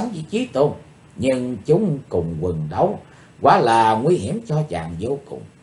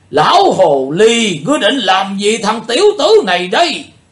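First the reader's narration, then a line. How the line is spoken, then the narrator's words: Loud roar. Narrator (Vietnamese): Lão tà gầm to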